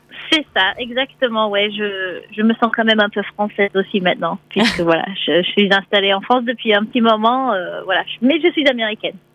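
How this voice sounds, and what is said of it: American accent speaking French. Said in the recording (French): “vous êtes américaine, hein, on l'entend à votre accent.”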